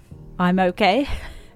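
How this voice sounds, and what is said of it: Flat robotic delivery. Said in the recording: “you sound like a robot”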